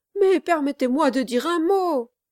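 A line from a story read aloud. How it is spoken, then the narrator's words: Pleading exclamation. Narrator (French): s'écria Kit d'un air de supplication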